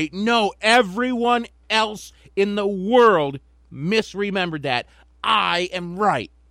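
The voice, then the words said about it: Passionate imitation of another person's voice. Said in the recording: “You did a really passionate impression there.”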